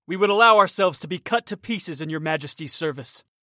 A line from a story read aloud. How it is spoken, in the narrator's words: cried the four companions with one voice